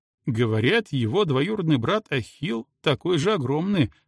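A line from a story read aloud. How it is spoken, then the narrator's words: Plain. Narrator (Russian): сказал Паламед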